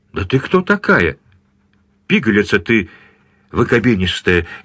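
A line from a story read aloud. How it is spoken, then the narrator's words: Louder, irritated drunken exclamation. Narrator (Russian): еще громче и раздражительнее воскликнул подвыпивший мужчина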